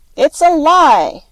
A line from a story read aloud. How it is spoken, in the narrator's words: roared Mr